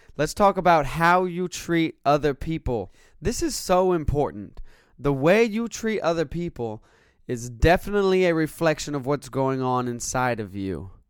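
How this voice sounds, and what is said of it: Raspy, congested voice. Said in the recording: “my raspy voice or the sniffles ... Texas has plagued me with allergies”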